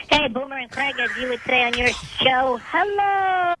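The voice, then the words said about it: Altered high helium-like voice. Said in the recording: “using a voice changer ... it sounds like you're on helium”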